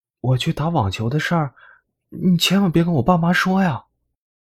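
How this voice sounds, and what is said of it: Quiet whispered secretive speech. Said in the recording (Chinese): “凑在福伯耳边小声的说，尽管周围没人，却害怕被别人发现一样”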